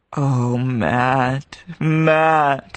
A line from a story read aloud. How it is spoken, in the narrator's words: he groaned